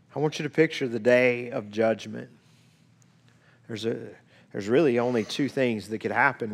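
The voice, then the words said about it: Strained, failing voice from illness. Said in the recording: “My voice is going a little bit. I know that's why I sound strange. I was sick this week.”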